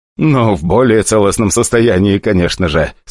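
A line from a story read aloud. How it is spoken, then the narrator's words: Joking blurt. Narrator (Russian): сморозил он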